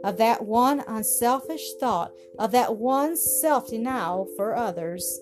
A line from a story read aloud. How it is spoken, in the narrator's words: she added softly